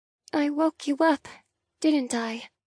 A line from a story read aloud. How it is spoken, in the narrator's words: I murmur